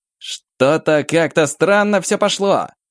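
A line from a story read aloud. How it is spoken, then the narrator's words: Shouting. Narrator (Russian): крикнул Максим, щурясь сквозь вихри снега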